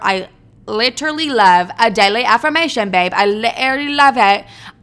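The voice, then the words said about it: Put-on British accent. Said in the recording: “That's not my British accent ... I don't know where these accents come from”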